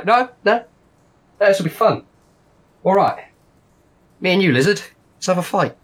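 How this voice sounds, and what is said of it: Shifting put-on gangster accent. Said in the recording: “I don't know what accent he's doing. It's wild... Started like snatch, and now it's like, don't know.”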